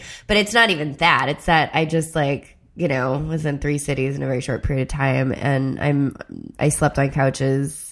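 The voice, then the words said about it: Nasal, congested, tired-sounding voice. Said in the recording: “you sound nasally ... that voice I'm nasally ... I'm also getting sick, and I'm tired”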